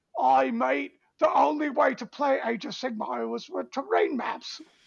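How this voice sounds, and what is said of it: Poor imitation of a UK accent. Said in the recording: “forgive me for being shitty in my accent ... which part of the UK is that”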